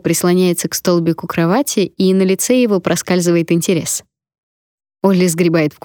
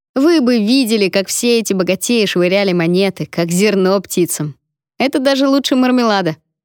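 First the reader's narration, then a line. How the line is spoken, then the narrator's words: Giggling. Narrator (Russian): Винк хихикает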